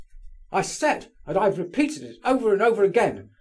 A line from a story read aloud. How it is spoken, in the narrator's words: shouted Burdovsky furiously